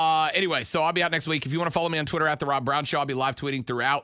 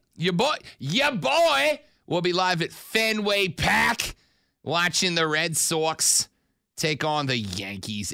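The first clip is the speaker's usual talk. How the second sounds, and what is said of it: Put-on Boston accent. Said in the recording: “I don't know how to say anything but those 12 words in a Boston accent. ... You do it quite well. You really do.”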